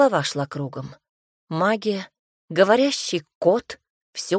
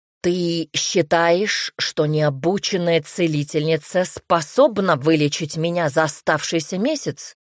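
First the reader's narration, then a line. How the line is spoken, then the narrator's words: Man's angry growl. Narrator (Russian): рыкнул мужчина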